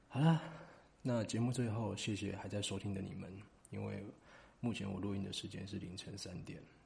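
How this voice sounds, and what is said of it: Quiet, flat late-night speaking. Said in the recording (Chinese): “我也只能尽量小声...我现在讲话声音有点平淡”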